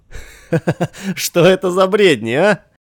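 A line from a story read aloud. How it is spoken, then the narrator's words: Laughing exclamation. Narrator (Russian): не удержался и, рассмеявшись, тотчас воскликнул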